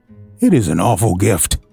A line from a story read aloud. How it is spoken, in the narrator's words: added Walter, lowering his voice from its tone of enthusiasm